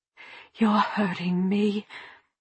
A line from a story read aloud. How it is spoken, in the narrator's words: only whispered